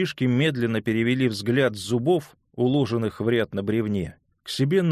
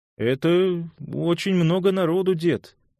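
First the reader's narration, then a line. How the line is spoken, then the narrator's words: Uncertain suggestion. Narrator (Russian): неуверенно предположил, наконец, Эдвин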